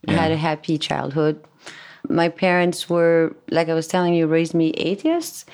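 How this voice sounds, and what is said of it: French accent in English. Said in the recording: “was born and raised in France. That's why my English is going to be a little funny ... I think it's a cool accent.”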